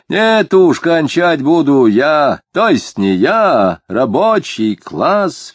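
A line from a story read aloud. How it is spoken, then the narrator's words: Increasingly loud and resolute. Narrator (Russian): все более громко и решительно заявил рыжеватый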